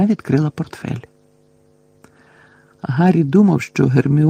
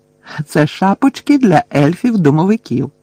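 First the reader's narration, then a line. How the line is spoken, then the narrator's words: Cheerful explanation. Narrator (Ukrainian): радісно пояснила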